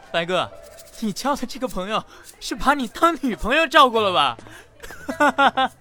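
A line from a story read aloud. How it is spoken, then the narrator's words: Loud mocking. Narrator (Chinese): 小四大声嘲笑顾元白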